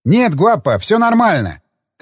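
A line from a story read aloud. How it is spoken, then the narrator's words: Shouted reply. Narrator (Russian): крикнул я в ответ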